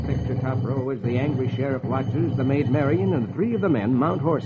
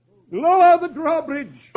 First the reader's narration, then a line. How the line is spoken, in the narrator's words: the sheriff cries